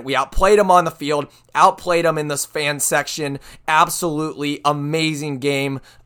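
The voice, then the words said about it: Hoarse, worn-out voice. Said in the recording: “As you can probably tell... My voice is gone. My voice is shot”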